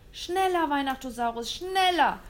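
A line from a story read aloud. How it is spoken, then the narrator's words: Terrified shout. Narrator (German): rief William und klammerte sich in Todesangst an seinen Rollstuhl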